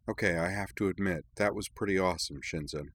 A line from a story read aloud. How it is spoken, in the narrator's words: Kirana said quietly